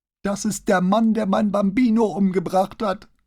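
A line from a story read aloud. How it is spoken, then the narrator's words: Sudden scream. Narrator (German): schrie plötzlich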